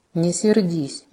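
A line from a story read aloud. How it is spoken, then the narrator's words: Quiet remark. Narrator (Russian): негромко заметил, не оборачиваясь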